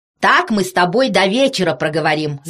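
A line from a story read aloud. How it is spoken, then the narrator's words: Shouted. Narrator (Russian): закричал доктор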